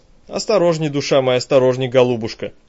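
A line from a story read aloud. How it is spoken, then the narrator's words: Stern self-reproach. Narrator (Russian): Строго сама себе сделала выговор Ирка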